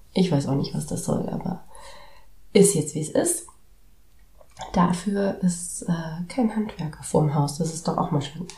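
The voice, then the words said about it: Hoarse, partly lost voice. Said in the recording (German): “man hört es mir vielleicht an. ... Meine Stimme ist wieder eher weg.”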